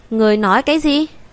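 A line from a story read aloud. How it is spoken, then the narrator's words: Woman shouting. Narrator (Vietnamese): Nữ tử kia quát lên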